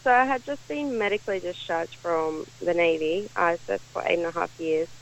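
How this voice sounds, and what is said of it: Australian accent. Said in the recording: “You're from Australia, obviously, but I can tell by your accent.”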